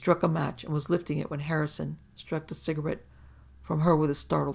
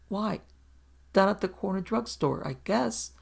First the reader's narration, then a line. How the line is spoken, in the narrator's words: she stammered